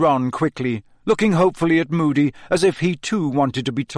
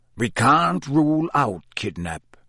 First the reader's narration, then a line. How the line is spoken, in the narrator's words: growled Moody